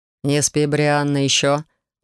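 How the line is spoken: Lazy command. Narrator (Russian): лениво велел Корф

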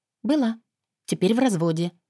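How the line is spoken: Calm. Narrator (Russian): спокойно проговорила

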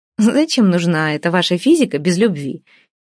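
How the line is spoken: Giggled. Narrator (Russian): хихикнула Вася

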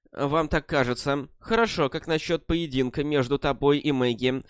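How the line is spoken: Muffled voice. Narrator (Russian): сказал он глухим голосом

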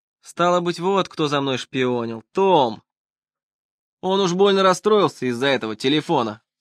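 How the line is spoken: Grumbled. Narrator (Russian): проворчал Хайрам

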